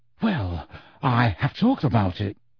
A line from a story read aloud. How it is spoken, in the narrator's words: Harry said in a whisper